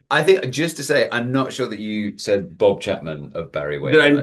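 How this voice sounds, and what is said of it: English accent. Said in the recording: “someone from Idaho based on his accent ... some people sometimes say Australia as well. It's actually near Cambridge in England.”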